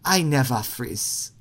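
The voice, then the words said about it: Put-on Wakandan accent. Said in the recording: “with an accent ... That's my attempt at this accent anyway. My Wakanda accent”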